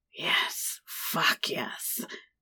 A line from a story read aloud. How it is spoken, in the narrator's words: growled